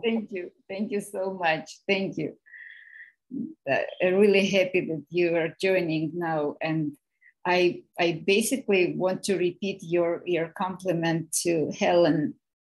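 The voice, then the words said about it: Speaks with a noticeable accent. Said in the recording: “I like your accent too. It's lovely.”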